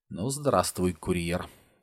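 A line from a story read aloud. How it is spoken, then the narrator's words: Quiet. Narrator (Russian): тихо произнес детектив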